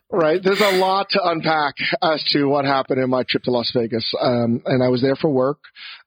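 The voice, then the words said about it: Hoarse, strained losing voice. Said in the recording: “If sounds like I'm losing my voice, I am, because I was in Las Vegas and I was yelling at the top of my lungs at the craps table ... You really lost your voice.”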